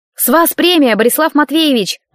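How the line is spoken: Shouting from a distance. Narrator (Russian): прокричала я уже из коридора

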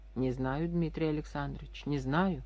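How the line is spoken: Plain. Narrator (Russian): ответил Иван Павлович

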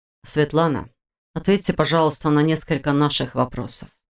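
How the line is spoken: Soft request. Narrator (Russian): попросил Войтых все тем же мягким тоном

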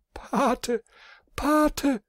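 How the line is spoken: Desperate scream. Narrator (German): schrie sie verzweifelt

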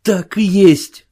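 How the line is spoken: Exclaimed. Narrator (Russian): воскликнул он

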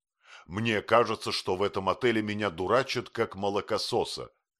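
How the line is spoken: Indignant exclamation. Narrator (Russian): воскликнул

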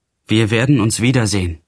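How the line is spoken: Calling out. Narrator (German): rief ich

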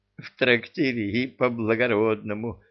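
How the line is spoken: Giggling. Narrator (Russian): хихикнул Люка

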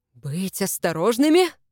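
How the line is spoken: Hissing, older man. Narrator (Russian): прошипел старший Сварцкак

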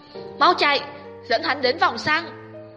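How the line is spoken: Loud shout. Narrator (Vietnamese): Tư Mã Cẩn hét lớn

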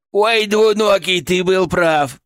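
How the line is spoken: Guffawing. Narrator (Russian): прохохотал он

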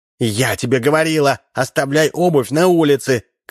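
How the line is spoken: Woman shouting. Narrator (Russian): крикнула жена

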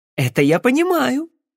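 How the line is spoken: Joyful declaration. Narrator (Russian): радостно заявила Розалинд

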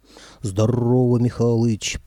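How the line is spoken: Deep bass voice. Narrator (Russian): пробасила правая голова

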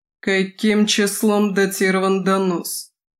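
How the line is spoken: Icy, grating voice. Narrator (Russian): Ледяным, почти скрежещущим голосом спросил Крэд

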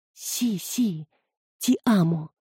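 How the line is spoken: Whispered. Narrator (Russian): прошептала я

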